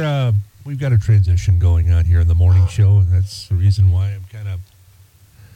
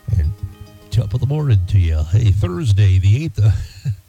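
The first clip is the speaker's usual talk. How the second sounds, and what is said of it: Exaggerated radio announcer voice. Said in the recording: “my radio voice.”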